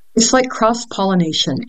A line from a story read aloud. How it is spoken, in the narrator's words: Anisette said